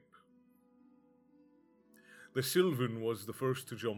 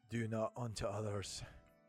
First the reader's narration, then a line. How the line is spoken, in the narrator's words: panted the Witcher